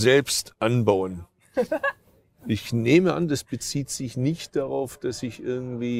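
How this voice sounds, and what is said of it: Usual voice. Nothing is said of it.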